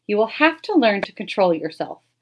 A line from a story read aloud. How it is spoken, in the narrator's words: said gently